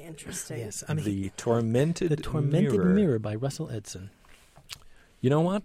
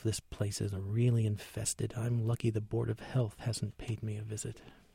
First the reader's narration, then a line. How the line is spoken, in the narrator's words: murmuring to himself